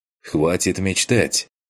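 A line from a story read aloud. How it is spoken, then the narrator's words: Doubtful snort. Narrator (Russian): хмыкнул я, с некоторым сомнением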